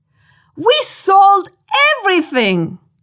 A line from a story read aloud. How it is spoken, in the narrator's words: yelled